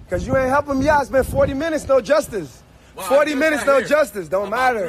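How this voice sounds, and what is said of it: Angry screaming. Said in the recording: “you're screaming at me.”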